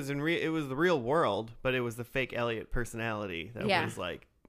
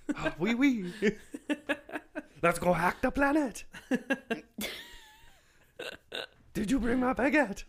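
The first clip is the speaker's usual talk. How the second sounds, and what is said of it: Put-on French accent. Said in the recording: “real Elliot has like a French accent”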